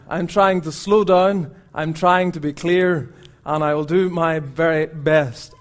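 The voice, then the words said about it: Strong Northern Irish accent. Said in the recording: “I hope the accent doesn't put you off. ... it's a strong accent. ... that's how we would say it in Northern Ireland”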